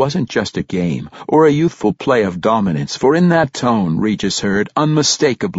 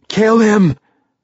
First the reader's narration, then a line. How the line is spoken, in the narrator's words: Bregnan Pruce ordered in a gasping and pained voice